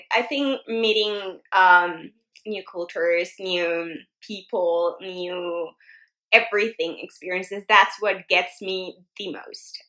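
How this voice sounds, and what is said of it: Slightly raspy voice. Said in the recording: “I'm a little bit sick, so I'm sorry, guys, if you hear my voice a little, you know, like raspy”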